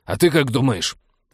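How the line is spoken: Reckless barking snap. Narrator (Russian): рявкнул на него капитан, решив, что хуже уже не будет

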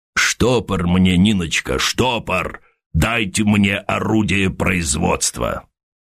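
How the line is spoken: Demanding rumbling bass. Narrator (Russian): Кто-то потребовал ракочущим басом

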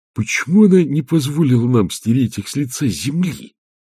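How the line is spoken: Angry whisper in ear. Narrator (Russian): зло прошептал Петр на ухо Агнессе

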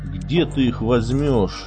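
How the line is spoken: Grumbled. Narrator (Russian): буркнул он бригадиру

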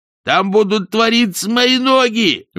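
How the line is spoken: Shrieked. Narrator (Russian): взвизгнул Ринсвинд

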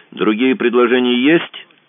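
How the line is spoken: Snapping. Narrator (Russian): огрызнулся Мазур

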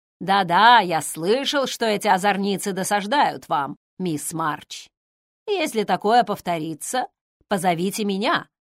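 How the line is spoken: Mock-stern. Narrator (Russian): сказал он, грозно хмурясь

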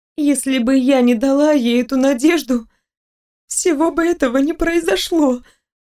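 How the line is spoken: Sobbing whisper. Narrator (Russian): всхлипнув, прошептала я припухшими губами

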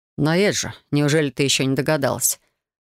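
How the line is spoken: Man's snort. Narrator (Russian): Хмыкнул мужчина

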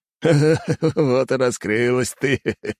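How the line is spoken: Old man laughing. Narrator (Russian): засмеялся дед

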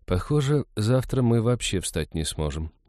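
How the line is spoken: Sighing. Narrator (Russian): вздохнула Иветта

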